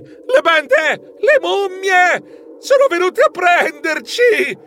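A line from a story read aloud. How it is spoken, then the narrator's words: Shriek. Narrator (Italian): Io strillai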